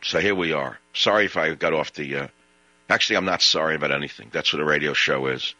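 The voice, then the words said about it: Brooklyn truck driver's accent. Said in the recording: “he speaks in a truck driver's accent like he's from Brooklyn”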